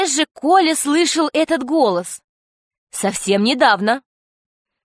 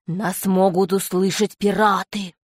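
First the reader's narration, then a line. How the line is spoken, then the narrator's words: Different voice. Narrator (Russian): второй клюв другим голосом произнес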